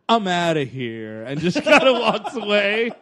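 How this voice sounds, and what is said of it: Josh Charles impression. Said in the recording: “good Josh Charles impression”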